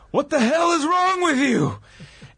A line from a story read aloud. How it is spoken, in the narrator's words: he yelled at the referee